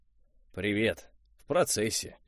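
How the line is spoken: Grumbling. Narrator (Russian): проворчал Виарел

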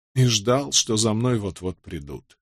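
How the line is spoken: Hesitant, barely audible mutter. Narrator (Russian): Помолчав, Овертон пробормотал едва слышно

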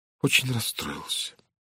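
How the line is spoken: Quiet reply. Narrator (Russian): тихо ответила она

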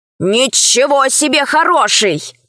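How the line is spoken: Grumbled. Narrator (Russian): проворчал Пашка

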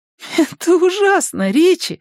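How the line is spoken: Laughing. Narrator (Russian): смеясь, оценил его старание Беверли

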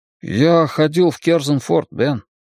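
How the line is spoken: Sad. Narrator (Russian): грустно сказал он

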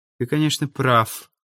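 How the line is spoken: Quiet. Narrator (Russian): тихо сказала Ирина

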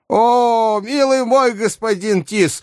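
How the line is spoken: Old woman shouting. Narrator (Russian): закричала ему старуха

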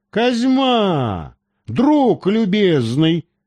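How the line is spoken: Joyful exclamation. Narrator (Russian): радостно воскликнул доктор

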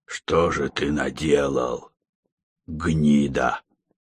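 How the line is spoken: Bewildered, confused hiss. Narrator (Russian): прошипел он, но в голосе старого уголовника чувствовалась скорее не ярость, а недоумение и растерянность

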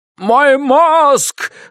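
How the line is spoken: Screamed. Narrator (Russian): завопил святой Матфей

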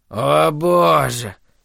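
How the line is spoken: Moaning. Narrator (Russian): простонал Холоран

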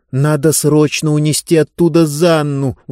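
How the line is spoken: Pleading. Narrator (Russian): взмолилась Диба

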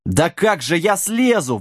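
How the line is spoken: Exhausted wail. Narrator (Russian): взвыл замученный Сэм

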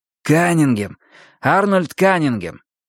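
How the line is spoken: Snorting. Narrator (Russian): Лебей хмыкнул

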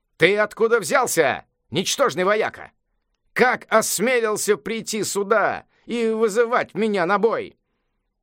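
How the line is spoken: Laughing shout. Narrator (Russian): великий мудрец рассмеялся и крикнул

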